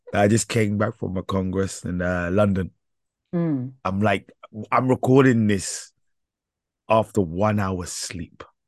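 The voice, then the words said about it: Hoarse, tired voice. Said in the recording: “hoarse voice ... It's better that I call you horse voice ... my voice is extra sexy today”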